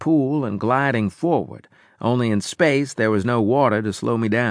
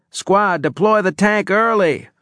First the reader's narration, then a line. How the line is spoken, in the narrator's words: shouted